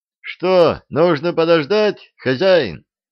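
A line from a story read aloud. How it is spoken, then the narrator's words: Driver shouting. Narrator (Russian): крикнул шофер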